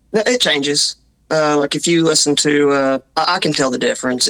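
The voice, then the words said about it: Southern mountain accent. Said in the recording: “Are you from Australia?" And we're like, "No, it's just, it's a strange accent." ... what Scottish and Irish people made the best they could come up with out of English ... we stayed here in the mountains ... we don't speak correctly”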